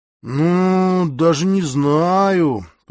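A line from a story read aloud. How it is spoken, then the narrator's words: Drawn-out, hesitant. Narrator (Russian): протянул я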